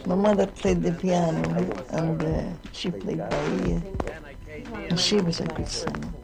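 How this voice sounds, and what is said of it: Scottish accent. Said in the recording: “I come from Scotland, as you'll know by my accent.”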